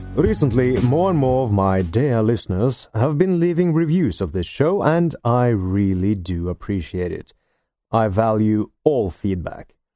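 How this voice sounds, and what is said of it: Non-native English, Norwegian accent. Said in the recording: “they're not able to place my accent... I am not a native English speaker, and I do not live in either the UK or the United States of America. I am a Norwegian, living in Norway.”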